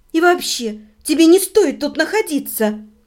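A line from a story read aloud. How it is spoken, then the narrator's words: Irritated. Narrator (Russian): раздраженно сказала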